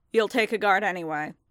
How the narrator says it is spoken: Fett said flatly

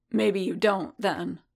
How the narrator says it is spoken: said Boba, roughly

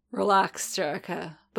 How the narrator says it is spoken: Boba rumbled, his voice heavy with amusement

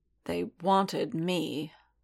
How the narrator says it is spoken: Din sighed

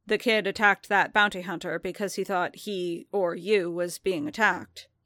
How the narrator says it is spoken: he said flatly

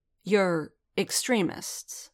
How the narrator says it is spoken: she continued, slowly, like she thought that Din was a particularly dim massif that couldn't figure out how to sit when it was told

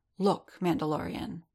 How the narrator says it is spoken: like a voice whispering

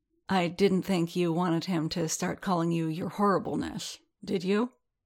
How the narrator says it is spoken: Boba grunted

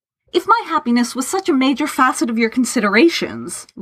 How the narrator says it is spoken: Lawrence said hotly

